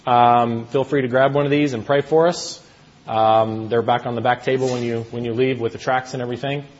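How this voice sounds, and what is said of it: American accent. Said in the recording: “I'm originally from the States. How many of you guys caught that with my accent?”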